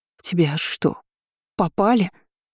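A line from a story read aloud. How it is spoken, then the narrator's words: Hoarse wheeze. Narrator (Russian): просипела я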